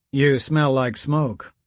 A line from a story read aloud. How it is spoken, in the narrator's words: Courtney said